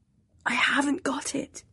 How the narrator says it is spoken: whispered

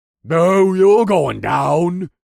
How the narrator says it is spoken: he growled

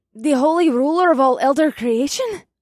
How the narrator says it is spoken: The bookworm brunette gasped, and it sounded like she was out of breath

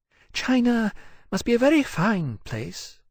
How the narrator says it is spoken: Poseitia said wistfully

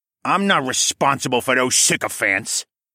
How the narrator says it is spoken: Saul growled

